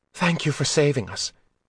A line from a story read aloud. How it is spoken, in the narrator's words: she panted